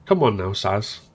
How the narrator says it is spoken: said gently

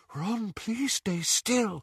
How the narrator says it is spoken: Luna whispered

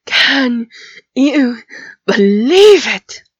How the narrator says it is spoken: panted, his voice distorted with fatigue and emotional upset

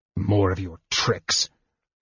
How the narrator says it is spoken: he snarled

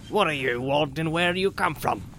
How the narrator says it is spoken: he asked gruffly

